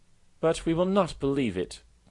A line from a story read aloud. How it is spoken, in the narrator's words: cried the crickets, heartbroken as they were